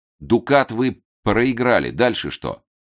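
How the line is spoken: Angry question. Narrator (Russian): зло спросил Эраст Петрович

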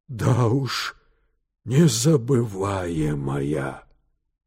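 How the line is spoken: Breathless exhale. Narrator (Russian): выдохнул Терциус

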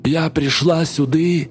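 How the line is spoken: Hoarse sing-song. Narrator (Russian): хриплым голосом нараспев завела Чука

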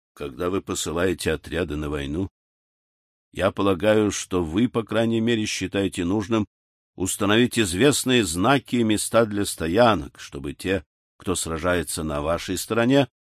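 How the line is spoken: Muttered. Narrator (Russian): пробормотал разведчик

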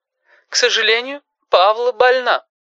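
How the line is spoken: Dry, mournful voice. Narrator (Russian): сказала эта женщина сухим и одновременно траурным голосом

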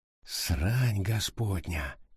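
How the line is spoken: Whisper. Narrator (Russian): шептал он

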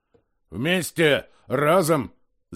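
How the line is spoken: Growled. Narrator (Russian): зарычал вожак

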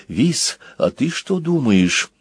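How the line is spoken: Whispered. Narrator (Russian): Банкан прошептал

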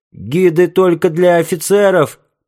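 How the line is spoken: Feeble protest, loud hiccup. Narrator (Russian): попытался возразить несчастный и громко икнул

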